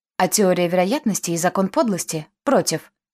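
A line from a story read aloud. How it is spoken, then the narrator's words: Barking. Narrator (Russian): рявкнул Па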